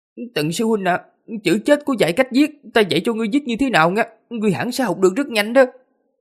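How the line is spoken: Trembling, shaky voice. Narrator (Vietnamese): Minh Tâm run rẩy, rung giọng nói

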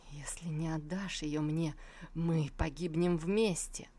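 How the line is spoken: Muttered through closed lips. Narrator (Russian): процедил сквозь сомкнутые губы

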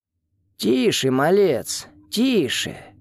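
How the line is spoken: Quiet hoarse voice. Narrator (Russian): Голос пришел из темноты, тихий и сиплый

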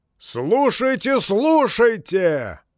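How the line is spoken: Thunderous shout. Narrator (Russian): прокричал он громовым голосом

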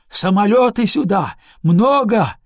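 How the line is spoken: Shout. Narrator (Russian): крикнул он

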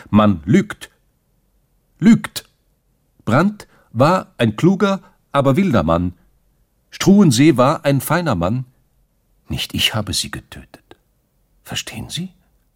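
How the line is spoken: Loud, provocative call. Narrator (German): Mit lauter Stimme, fast provokativ, rief er

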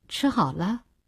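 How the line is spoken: Cold, fierce question. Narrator (Chinese): 恶狠狠地，冷冷地问

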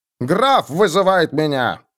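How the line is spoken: Growling. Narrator (Russian): прорычал он

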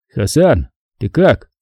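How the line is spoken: Quiet. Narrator (Russian): негромко произнес я

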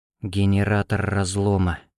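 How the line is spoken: Near whisper. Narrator (Russian): почти шепотом ответила Юсупова

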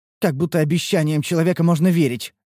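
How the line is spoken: Scornful snort. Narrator (Russian): фыркнула Рен

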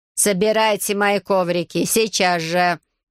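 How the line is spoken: Stepmother's growl. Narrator (Russian): рыкнула мачеха

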